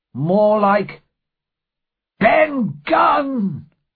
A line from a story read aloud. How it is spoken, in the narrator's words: shouted Silver